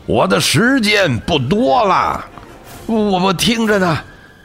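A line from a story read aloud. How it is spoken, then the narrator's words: Ghost shouting. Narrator (Chinese): 魂灵大喊道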